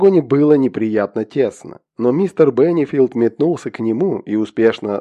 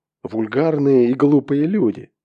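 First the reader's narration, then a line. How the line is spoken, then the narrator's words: Muttering to himself. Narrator (Russian): пробормотал он про себя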